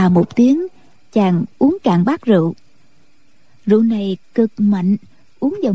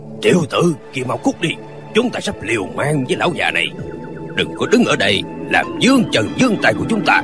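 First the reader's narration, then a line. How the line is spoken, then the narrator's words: Deep husky male shout. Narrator (Vietnamese): Một hán tử giọng ồm ồm quát lên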